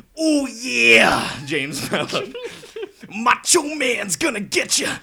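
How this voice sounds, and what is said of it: Macho Man Randy Savage impression. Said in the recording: “Macho Man Randy Savage ... give me your best impression”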